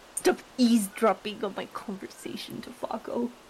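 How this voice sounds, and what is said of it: Whispering. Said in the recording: “I'm whispering. ... that's a good job of whispering.”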